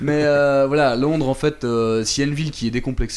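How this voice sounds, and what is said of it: Usual voice. Nothing is said of it.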